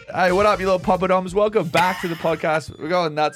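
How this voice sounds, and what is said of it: Australian accent. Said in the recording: “it's all foreign accents. We have two Australians in the building ... Three Australians. ... Fuck, I forgot I'm one.”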